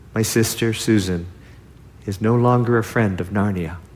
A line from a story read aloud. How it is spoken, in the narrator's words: her brother Peter says gravely